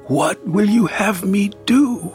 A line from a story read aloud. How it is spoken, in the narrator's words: he asked desperately